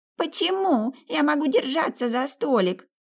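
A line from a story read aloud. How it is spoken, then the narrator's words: Shrieking boy. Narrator (Russian): визжал мальчик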